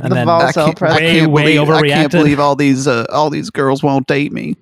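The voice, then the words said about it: Impression of George W. Bush. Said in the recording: “That's what Bush talks like.”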